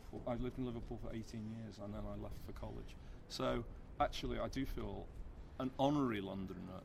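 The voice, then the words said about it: Northwest English accent. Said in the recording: “from my accent you will know that I'm from the Northwest”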